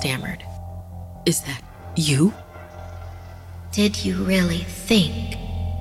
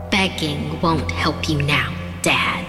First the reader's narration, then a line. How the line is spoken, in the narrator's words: she said